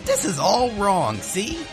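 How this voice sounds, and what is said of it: Scratchy Brooklyn-accented Meowth voice. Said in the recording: “with a scratchy Brooklyn accent”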